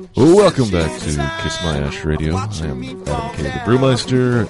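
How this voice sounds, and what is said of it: Low, deep NPR-style radio voice. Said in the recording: “this is my best NPR voice. ... I'm feeling lower than usual. Did you put some extra bass or something in my microphone”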